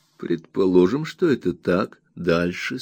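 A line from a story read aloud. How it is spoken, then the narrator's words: Plain. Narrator (Russian): сказал я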